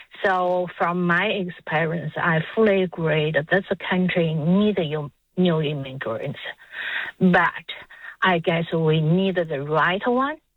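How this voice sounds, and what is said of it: Non-native immigrant accent. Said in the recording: “as you can hear, I have that accent. So myself is an immigrant”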